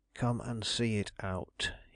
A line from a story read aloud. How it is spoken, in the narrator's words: he whispered